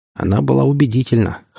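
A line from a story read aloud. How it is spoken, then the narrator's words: Smirking snort. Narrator (Russian): хмыкнул Игнат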